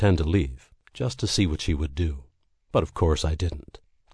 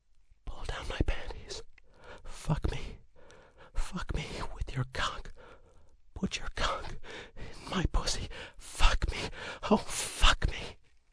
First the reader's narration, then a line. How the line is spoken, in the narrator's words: as if she couldn't help it, she continued, whispering as if to herself